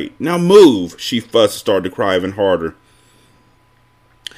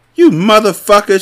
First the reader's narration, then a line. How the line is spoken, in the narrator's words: she yelled